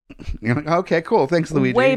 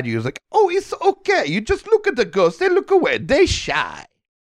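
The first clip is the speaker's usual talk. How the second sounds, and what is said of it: Luigi cartoon character voice. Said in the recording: “Way better Luigi impression than mine is. I'm impressed. Really good. ... my one impression I can do is Luigi”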